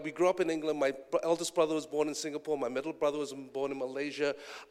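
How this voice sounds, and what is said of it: English accent. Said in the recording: “this beautiful English accent”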